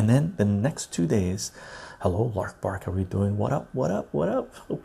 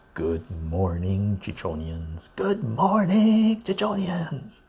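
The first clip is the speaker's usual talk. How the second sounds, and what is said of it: Imitates an energetic radio announcer voice. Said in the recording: “In Robin Williams' radio voice,”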